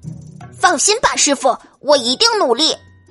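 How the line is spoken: Loud. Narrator (Chinese): 达克大声的对巴尔说

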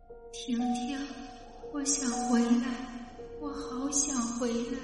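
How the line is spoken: Soft longing call. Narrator (Chinese): 他看到杜梅离他越来越远，口中还轻声的喊

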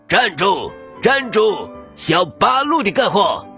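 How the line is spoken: Faint distant shouting. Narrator (Chinese): 隐隐约约的吼叫声

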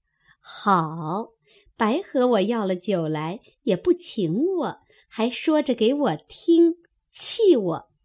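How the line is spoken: Laughing. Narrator (Chinese): 平儿笑道

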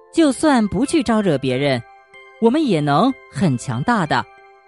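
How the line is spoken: Teacher's raised voice. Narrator (Chinese): 布鲁莫老师提高声音，对全班的小朋友说

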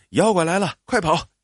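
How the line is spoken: Shouting. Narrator (Chinese): 刘小涛喊

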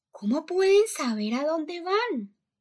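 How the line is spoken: Shouting in the dark. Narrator (Spanish): gritó Violet en la oscuridad

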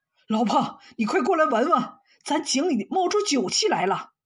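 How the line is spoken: Surprised shout. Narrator (Chinese): 他惊讶的喊道

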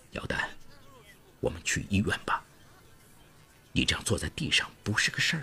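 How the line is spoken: Soft. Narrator (Chinese): 他轻声对他说

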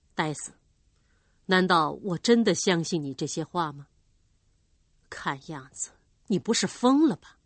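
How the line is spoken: Cold question. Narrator (Chinese): 对戴斯冷冷的问

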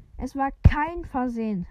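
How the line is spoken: Angry shout. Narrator (German): rief Harry zornig

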